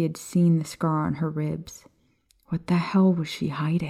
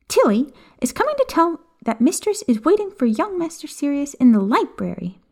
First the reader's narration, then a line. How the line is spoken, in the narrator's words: she said sweetly, though there was mischief playing across her face